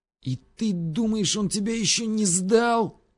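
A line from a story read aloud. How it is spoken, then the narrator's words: Hissed, barely restrained. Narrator (Russian): прошипел я, едва сдерживаясь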